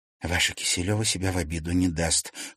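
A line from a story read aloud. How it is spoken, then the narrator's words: Gloomy mutter. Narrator (Russian): хмуро пробормотала Алиса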